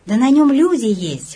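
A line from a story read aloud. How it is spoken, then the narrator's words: Exclaiming. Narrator (Russian): воскликнул Горчаков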